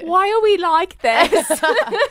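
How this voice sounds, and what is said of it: Bad put-on British accent. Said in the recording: “I'm gonna do a really bad British accent.”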